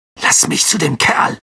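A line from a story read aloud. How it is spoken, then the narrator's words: Growl. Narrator (German): knurrte Ron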